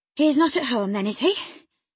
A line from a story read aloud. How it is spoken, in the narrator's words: panted, quite breathless, with quick walking and alarm